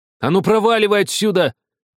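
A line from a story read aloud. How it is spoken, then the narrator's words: Shouting with barely restrained rage. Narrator (Russian): прокричал Артур, еле сдерживая себя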